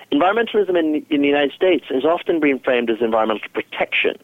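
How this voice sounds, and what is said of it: Non-American accent. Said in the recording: “you know from my accent ... I originally grew up in Africa and England and Canada”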